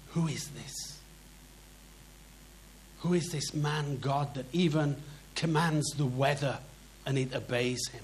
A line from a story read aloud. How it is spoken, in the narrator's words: in amazement, they whispering to each other